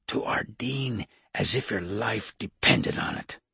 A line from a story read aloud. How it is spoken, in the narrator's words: whispered